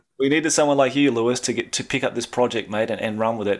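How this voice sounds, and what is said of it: Australian accent. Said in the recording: “I've got a horrible Aussie accent”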